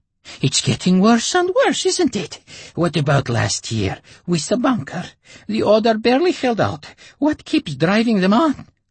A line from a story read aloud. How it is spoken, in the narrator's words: the woman with the goiter panted